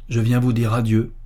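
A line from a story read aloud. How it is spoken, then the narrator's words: Plain. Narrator (French): dit Jean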